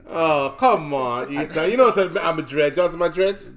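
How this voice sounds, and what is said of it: Put-on Jamaican accent. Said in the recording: “here comes the Jamaican accent”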